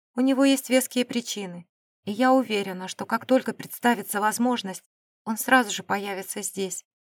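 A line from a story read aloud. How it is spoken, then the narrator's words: Calm remark. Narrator (Russian): спокойно заметила экономка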